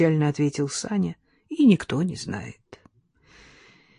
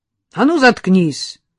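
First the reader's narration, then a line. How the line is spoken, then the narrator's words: Sharp shout. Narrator (Russian): прикрикнул на него Сашка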